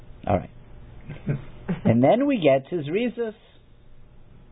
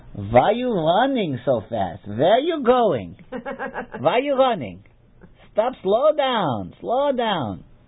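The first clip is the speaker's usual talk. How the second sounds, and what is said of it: Elderly grandmother's Yiddish accent. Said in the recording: “my grandmother with her, you know, sweet, bubby face ... in her Yiddish, you know, her accent.”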